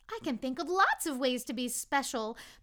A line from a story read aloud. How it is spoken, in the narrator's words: the little soul then exclaimed